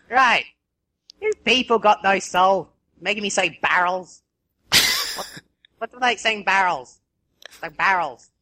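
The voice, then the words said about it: Australian accent. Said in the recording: “Australian accent”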